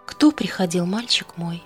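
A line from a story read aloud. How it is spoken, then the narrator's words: Gentle question, mother. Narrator (Russian): ласково спросила мама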